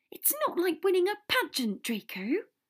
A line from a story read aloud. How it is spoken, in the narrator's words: Hermione said crossly